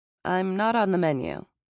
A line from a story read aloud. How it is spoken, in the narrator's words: I said